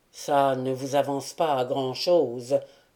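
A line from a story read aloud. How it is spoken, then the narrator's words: Old man grumbling. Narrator (French): grommela le vieux Pérol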